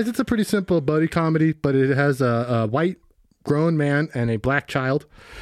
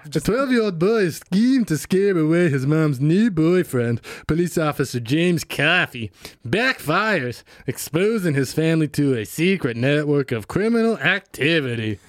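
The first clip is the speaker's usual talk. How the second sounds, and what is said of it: Strained throaty imitation of another person. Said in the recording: “You had a little bit of Russian, Scottish, British in there ... that wasn't like a dialect. That was like a specific area of Kentucky ... That sounds like someone got chopped in the throat and then was forced to speak ... It's my Bob Dylan impression ... He just throws away every sentence”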